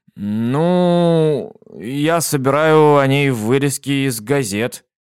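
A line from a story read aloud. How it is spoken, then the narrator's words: Uncertain. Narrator (Russian): неуверенно ответил он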